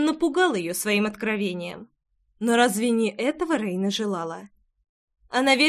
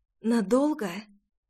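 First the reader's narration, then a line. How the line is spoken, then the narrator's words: Hoarse questioning. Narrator (Russian): хрипло переспросила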